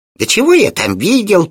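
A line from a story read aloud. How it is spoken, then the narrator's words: Homunculus grumbling. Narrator (Russian): проворчал гомункул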